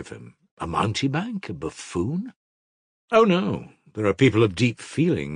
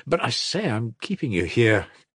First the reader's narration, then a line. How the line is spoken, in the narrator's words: Kolya cried suddenly